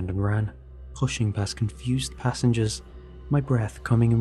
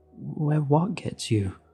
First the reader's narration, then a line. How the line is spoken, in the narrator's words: asked, my voice shaking